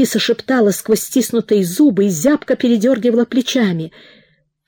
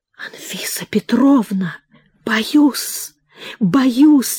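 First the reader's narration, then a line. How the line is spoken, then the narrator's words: Very quiet frightened whisper. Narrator (Russian): еще тише прошептала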